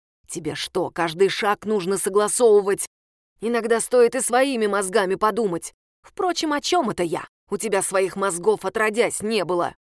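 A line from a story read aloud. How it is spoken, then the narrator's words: Hissing. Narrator (Russian): Софья прошипела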